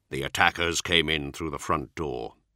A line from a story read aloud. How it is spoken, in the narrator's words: the chapter master said quietly